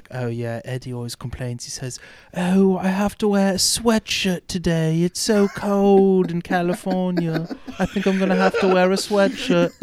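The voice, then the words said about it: Put-on British accent. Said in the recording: “in his very British accent”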